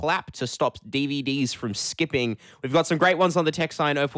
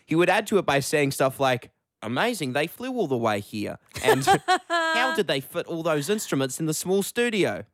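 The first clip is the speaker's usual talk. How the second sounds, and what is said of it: Put-on New Zealand accent. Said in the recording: “that was my New Zealand accent. ... Very good”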